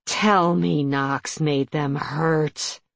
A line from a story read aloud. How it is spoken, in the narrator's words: she growled